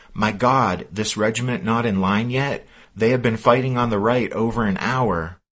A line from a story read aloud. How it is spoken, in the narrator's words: The officer exclaimed